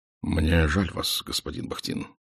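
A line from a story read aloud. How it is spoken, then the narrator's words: Quiet. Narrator (Russian): тихо сказал он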